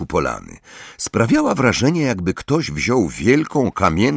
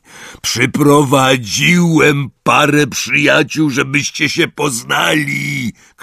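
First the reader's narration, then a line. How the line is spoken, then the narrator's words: Shouted. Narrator (Polish): krzyknął Hagrid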